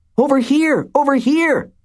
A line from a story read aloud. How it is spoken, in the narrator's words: they yelled